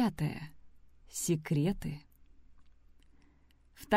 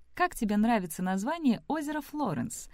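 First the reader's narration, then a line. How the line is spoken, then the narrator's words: Cheerful question, forced lightness. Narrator (Russian): весело спросила Сэм, пытаясь забыть прошлую ночь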